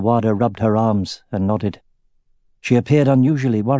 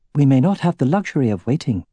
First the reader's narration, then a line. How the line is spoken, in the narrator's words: said Arya